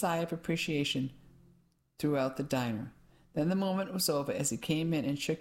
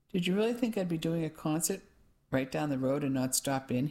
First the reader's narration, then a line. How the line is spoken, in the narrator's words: he asked